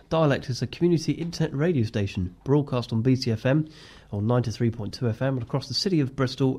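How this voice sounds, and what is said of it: Slightly snivelly, congested voice. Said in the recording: “my slightly snivelly voice. I've managed to get a cold”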